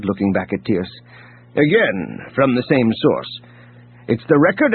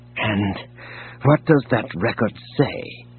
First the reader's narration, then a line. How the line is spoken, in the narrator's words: He asked softly